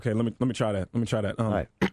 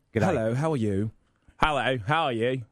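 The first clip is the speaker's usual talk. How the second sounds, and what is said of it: Australian then British accent. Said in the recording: “can you do Australian, then do British?”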